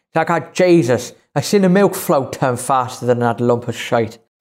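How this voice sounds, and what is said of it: Put-on Northern Irish accent. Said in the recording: “I apologise in advance for the accent ... I think it's more the accent of what and how he said it.”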